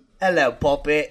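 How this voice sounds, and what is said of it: Put-on British accent. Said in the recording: “You do British”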